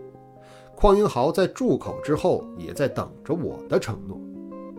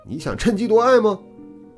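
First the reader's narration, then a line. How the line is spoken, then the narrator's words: Angry roar. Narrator (Chinese): 邝英豪怒吼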